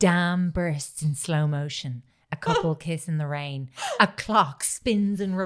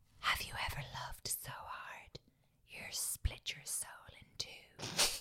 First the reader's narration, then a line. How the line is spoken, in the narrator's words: whispered